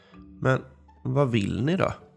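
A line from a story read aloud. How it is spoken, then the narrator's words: Plain question. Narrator (Swedish): frågade han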